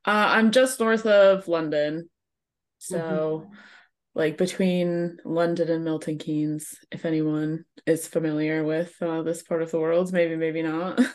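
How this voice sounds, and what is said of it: American accent. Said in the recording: “I'm stuck with an American accent for forever.”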